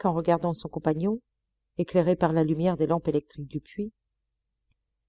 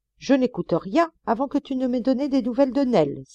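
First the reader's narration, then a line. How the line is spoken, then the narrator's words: Exclaimed. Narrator (French): s'écria Jack Ryan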